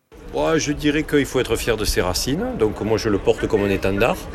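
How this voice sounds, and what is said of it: Southern French accent. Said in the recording (French): “vous avez l'accent que j'ai ... quand vous avez l'accent du Sud”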